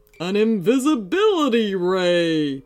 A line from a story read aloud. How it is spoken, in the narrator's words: boomed Howlerg triumphantly